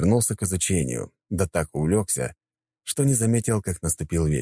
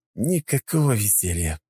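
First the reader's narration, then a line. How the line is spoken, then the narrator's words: Sigh. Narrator (Russian): вздохнул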